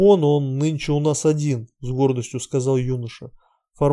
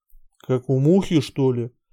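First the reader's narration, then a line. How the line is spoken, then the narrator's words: Gloomy question, stoker. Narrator (Russian): мрачно спросил кочегар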